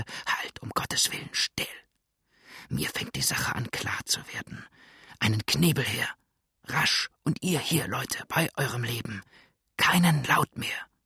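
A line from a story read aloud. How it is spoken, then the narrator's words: Quick whisper. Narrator (German): rasch und flüsternd sagte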